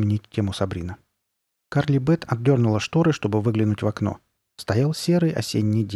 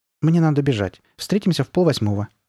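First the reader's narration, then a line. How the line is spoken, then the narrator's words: Quick speech. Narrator (Russian): быстро проговорила Карли Бет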